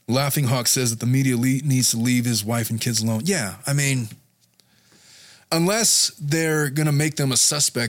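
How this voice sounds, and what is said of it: Strained, fading voice. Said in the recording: “if my voice sounds funny ... my voice is starting to go”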